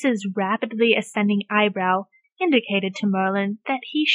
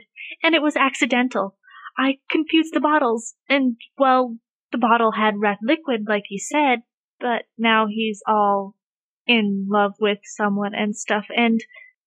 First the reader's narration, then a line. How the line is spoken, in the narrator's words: Merlin blurted